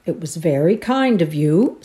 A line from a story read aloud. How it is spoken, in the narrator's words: said Uncle Richard dryly